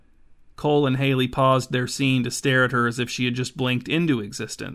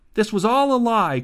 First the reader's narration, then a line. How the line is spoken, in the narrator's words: cried Haley